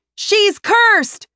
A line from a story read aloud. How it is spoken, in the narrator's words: someone yells from deep in the crowd